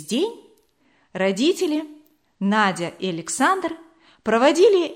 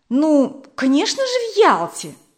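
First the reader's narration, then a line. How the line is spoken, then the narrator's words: Exclaiming. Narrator (Russian): воскликнула Вера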